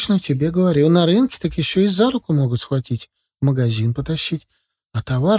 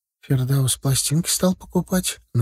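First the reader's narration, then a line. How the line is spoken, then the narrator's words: Quiet, secretive. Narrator (Russian): начала рассказывать Галия тихонько, чтобы их не услышали в комнате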